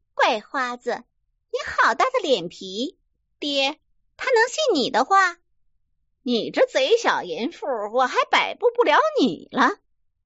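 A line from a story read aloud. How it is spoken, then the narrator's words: Laughing scold. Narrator (Chinese): 桂姐笑骂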